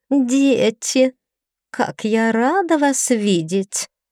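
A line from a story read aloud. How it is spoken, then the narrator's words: Sugary singsong stepmother. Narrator (Russian): елейным голоском запела будущая мачеха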